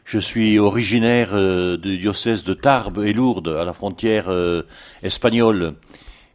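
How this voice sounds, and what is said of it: Southern French accent. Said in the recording (French): “à mon accent, vous conviendrez que je suis un homme du Midi.”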